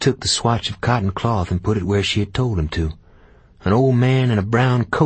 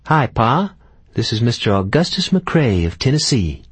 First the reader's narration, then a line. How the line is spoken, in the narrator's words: Clara said merrily